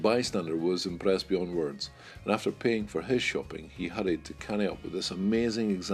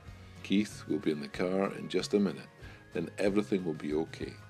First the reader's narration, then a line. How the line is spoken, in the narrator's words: Dad was very calmly saying over and over